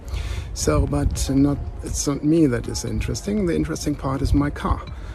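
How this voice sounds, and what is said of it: German accent. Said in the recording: “as you can certainly tell from my accent, I am German.”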